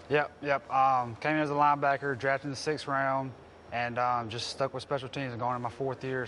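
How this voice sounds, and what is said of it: Slight Mississippi Southern accent. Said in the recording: “So you're from Mississippi. You got a little accent, huh? ... You know the ladies love a good accent.”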